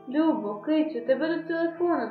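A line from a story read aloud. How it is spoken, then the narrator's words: Trembling voice. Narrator (Ukrainian): тремтливим голосом промовила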